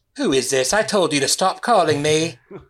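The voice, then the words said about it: Bad put-on British accent. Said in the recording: “that was a bad British accent.”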